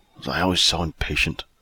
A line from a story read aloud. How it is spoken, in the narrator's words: he muttered to himself